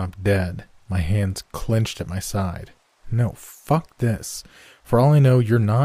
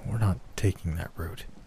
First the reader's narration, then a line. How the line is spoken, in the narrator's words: whispering